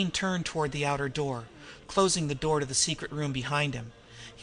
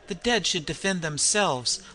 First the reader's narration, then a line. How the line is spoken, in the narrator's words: laughed L'Armand